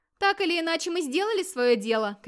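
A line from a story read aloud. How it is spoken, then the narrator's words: Shouting. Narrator (Russian): крикнул Гейр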